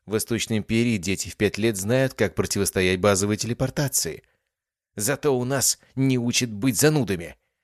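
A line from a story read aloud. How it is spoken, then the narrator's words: Snapping retort. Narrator (Russian): огрызнулась Кас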